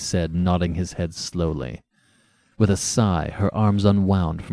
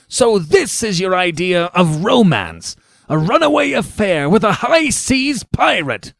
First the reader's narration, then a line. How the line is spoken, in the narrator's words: he repeated savagely